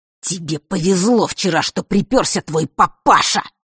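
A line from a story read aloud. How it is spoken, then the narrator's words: Furious hiss. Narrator (Russian): прошипел разъяренный Марк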